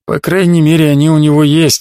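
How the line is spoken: Sighing. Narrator (Russian): вздохнул Ваагин

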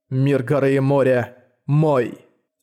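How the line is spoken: Cold announcement. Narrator (Russian): холодно объявил Манхао

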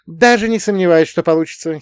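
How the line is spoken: Giggling. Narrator (Russian): хихикнула она

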